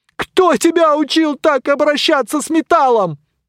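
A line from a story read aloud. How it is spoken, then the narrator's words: Yelling voices. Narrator (Russian): вопили они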